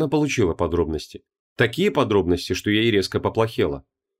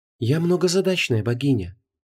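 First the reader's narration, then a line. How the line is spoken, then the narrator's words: Soft. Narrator (Russian): мягко сказала Инанна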